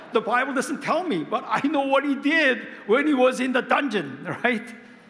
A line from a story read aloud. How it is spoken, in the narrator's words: He cried